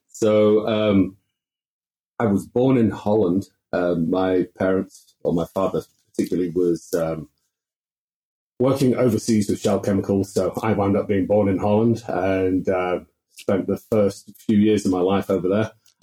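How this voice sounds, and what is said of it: Dutch accent. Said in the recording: “the Dutch accent”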